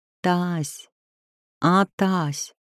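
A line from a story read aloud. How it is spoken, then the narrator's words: Quiet call. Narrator (Russian): негромко позвала Нелли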